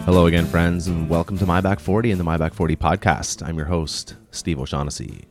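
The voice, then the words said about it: Unusually deep, radio-like voice. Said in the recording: “My voice is very deep today... I just got up out of bed not too long ago, and I'm feeling very deep, very radio-y.”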